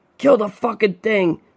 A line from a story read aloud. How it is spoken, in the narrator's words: the other roared